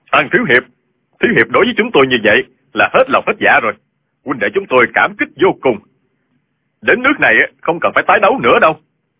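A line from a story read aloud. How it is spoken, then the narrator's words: Loud clamoring crowd. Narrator (Vietnamese): Người trong Minh giáo và Thiên Ương giáo xôn xao lớn tiếng kêu lên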